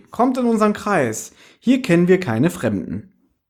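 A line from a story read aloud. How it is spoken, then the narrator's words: Called out. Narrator (German): rief sie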